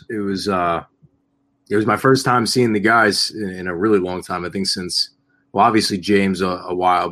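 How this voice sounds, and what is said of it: Hoarse voice. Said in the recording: “my voice is a little hoarse.”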